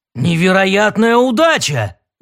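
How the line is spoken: Exclaimed. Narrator (Russian): наконец воскликнул Дрил

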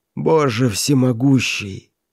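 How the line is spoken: Hoarse outburst. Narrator (Russian): хрипло вырвалось у миллионера

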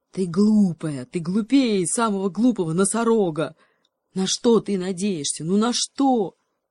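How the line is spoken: Cheetah growling. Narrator (Russian): рычал гепард

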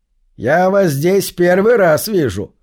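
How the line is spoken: Sudden loud call across hall. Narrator (Russian): вдруг сказал он громко через весь зал

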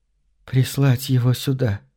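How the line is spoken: Undertone. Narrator (Russian): вполголоса ответила она

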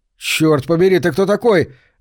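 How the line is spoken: Bark. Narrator (Russian): рявкнул Сэм

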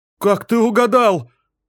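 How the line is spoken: Exclaiming woman. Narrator (Russian): воскликнула она

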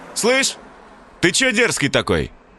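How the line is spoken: Sharp call. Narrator (Russian): окрикнул второй

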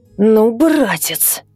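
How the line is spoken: Hissing male. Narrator (Russian): прошипел Михай

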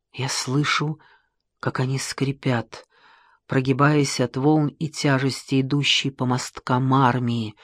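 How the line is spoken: Whisper. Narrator (Russian): шептал Геродот

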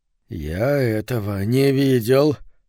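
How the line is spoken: Dejected muttering. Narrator (Russian): уныло пробормотал Говард Митла

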